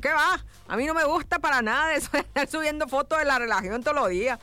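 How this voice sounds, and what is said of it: Put-on Sonoran Mexican accent. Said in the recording (Spanish): “lo leí con acento sonorense”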